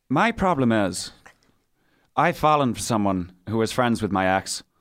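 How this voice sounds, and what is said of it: Put-on accent reading aloud. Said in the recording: “that was phenomenal? ... Accent. ... You could have done a little bit better, maybe.”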